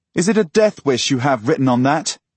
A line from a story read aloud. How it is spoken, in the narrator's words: shout